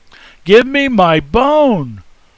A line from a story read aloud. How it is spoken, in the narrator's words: the woman cries out